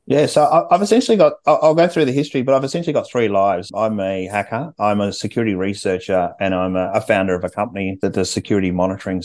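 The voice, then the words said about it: Australian accent. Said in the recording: “What's this accent? ... Australian accent, you picked it well.”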